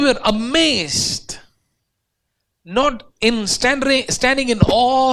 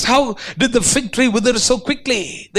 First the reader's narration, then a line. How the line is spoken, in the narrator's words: they asked